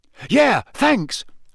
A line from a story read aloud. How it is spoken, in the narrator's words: Ron shouted over his shoulder